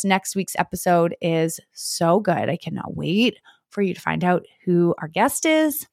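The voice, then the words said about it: Strained, fading voice. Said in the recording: “I'm officially losing my voice.”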